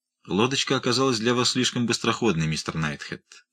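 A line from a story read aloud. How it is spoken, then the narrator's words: Calm remark. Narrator (Russian): спокойно заметил Уайлдер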